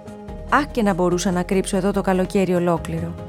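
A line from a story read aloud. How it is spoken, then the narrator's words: Sad murmur to oneself. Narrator (Greek): μονολογούσε λυπημένα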